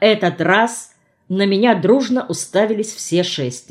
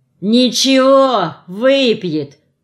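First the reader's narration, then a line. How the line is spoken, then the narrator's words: Menacing drawl. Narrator (Russian): угрожающе протянул Бычков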